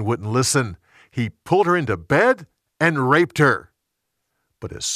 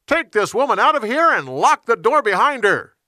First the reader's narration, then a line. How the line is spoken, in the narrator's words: He shouted to his servants